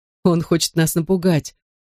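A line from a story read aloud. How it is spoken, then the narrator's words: Chuckling. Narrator (Russian): хохотнул Бен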